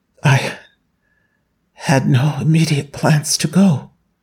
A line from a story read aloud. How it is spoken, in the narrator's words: Lin Nancheng whispered